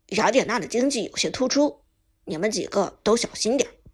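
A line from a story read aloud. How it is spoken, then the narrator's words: Deep grave voice. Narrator (Chinese): 沉声说道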